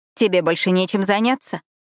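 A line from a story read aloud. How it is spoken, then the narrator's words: Snapping retort. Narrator (Russian): огрызнулась я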